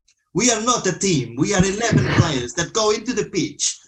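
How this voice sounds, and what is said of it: Put-on Italian accent. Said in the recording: “Do you want to do it in an Italian accent? ... In his accent. ... I'm just going to go into normal accent now.”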